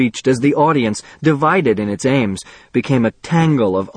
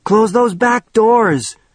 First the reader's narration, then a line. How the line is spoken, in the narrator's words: shouted Bert